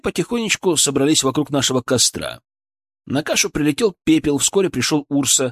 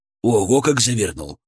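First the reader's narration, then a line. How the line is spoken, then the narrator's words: Amused snort. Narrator (Russian): хмыкнул Гамбо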